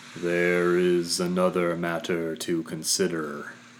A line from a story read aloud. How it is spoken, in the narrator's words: Igneous groaned